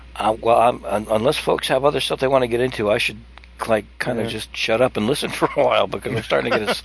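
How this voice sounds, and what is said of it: Strained, hoarse voice. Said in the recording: “I'm losing my voice here ... I was starting to get a sore throat today.”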